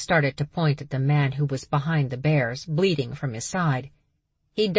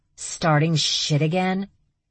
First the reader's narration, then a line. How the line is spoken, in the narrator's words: She growled